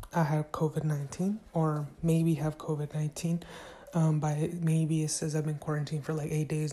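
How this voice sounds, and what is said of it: Raspy, quiet voice. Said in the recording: “my voice may sound a little raspy ... trying to stay a little quiet”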